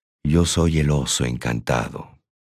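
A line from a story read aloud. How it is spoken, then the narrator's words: Murmuring. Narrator (Spanish): murmuré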